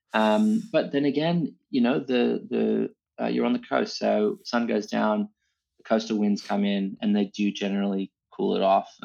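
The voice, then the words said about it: Non-local accent, not Australian. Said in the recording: “As you can hear from my accent, I haven't lived here my entire life”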